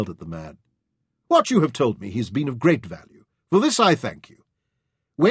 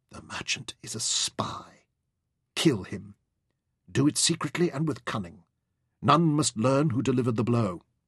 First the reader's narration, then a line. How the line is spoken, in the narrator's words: he whispered